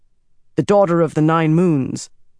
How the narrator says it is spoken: the dragon reborn said sternly

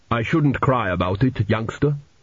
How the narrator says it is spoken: he said gruffly

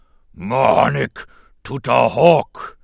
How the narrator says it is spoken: Jabba boomed

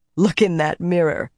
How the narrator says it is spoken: laughed

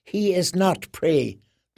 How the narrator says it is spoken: the boy whispered to the beast who shared his skin

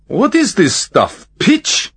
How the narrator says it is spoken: Lyubkin laughed

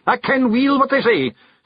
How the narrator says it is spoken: snapped Rob Anybody

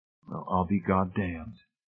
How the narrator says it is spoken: Hamilton said softly

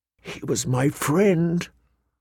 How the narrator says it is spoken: Arya whispered into her plate, so low that no one could hear

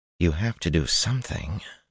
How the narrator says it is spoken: Min muttered

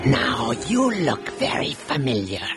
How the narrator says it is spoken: he rasped

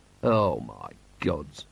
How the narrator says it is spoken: murmured Vimes

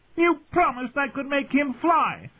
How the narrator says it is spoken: the Lord of the Eyrie screamed at his mother

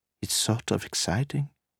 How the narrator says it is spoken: Nina said wistfully

